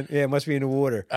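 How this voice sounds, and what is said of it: Put-on Philadelphia accent. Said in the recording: “with the Philly accent.”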